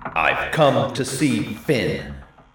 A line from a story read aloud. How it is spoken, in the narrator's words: he growled